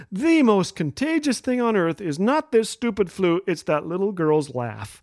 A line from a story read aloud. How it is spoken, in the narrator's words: I said in a weak little voice